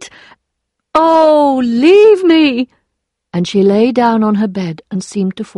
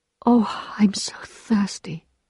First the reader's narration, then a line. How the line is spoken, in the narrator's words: she sighed